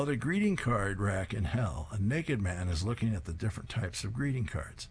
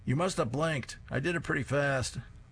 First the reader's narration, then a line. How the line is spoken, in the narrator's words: Grandpa yells after him